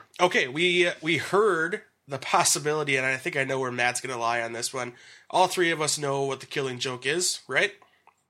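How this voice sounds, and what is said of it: Congested voice from a cold. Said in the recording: “as you can hear from my voice, recovering from a pretty nasty cold.”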